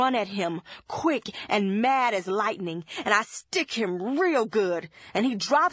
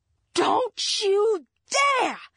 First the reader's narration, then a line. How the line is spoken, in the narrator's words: I yell like I'm throwing stones, and my mind's all gone red with my rage